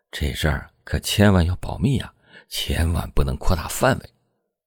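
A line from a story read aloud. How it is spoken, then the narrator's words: Whisper in ear. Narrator (Chinese): 池亨军附在他耳边低声的说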